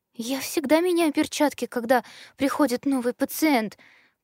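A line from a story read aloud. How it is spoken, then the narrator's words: Nervous babbling. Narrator (Russian): пролепетала знающая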